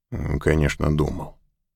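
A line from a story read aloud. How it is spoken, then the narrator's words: Gloomy. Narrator (Russian): произнес Мак мрачно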